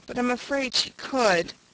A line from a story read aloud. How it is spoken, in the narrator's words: faltered Una uncomfortably